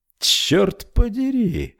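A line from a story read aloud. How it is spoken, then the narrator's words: Admiring exclamation. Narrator (Russian): восхищенно воскликнул Рой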